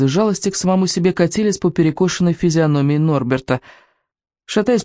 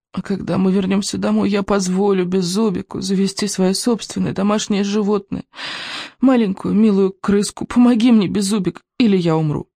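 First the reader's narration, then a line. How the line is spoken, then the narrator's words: Rasped. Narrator (Russian): прохрипел Икинг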